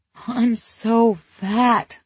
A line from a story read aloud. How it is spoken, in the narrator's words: moaned